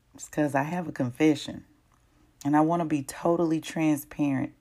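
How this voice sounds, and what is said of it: Much deeper voice than usual. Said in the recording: “my voice is a whole lot deeper than it normally is”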